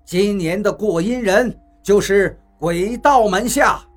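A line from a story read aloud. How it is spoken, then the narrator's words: Loud shout. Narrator (Chinese): 宇文发沉 便高声喊道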